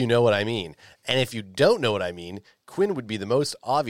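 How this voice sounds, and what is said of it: Usual voice. Nothing is said of it.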